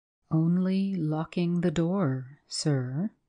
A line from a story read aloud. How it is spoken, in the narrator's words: replied the secretary in a quite even voice